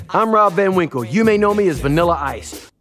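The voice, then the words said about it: Imitates another person's voice. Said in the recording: “good an impression as you do there, of Vanilla Ice”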